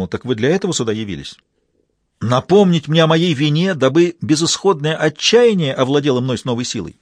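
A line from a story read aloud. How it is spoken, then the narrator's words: Furious indignant exclamation. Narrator (Russian): В глазах Клитера вспыхнула ярость, негодующе воскликнул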